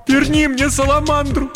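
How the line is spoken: Sobbing plea. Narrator (Russian): рыдая, попросила Кирен

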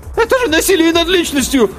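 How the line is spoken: Timid squeak. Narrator (Russian): пискнул было тот, что утверждал, что их непременно освободят, но тут же сник

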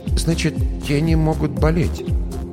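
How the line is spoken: Forced out. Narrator (Russian): выдавила лишь

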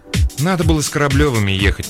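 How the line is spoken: Grumble. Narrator (Russian): проворчала Маринка

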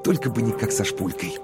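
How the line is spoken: Whisper. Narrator (Russian): Коровин прошептал

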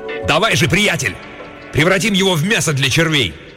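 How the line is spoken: Cursing shout. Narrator (Russian): выругавшись, крикнул Чуме

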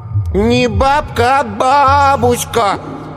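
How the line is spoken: Drawled, preachy, finger in nose. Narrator (Russian): назидательно протянул Коленька, засунувший в нос указательный палец чуть ли не по третью фалангу

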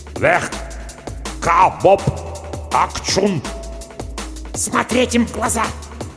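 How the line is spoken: Furious whispered command. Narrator (Russian): яростным шепотом приказала Дженни

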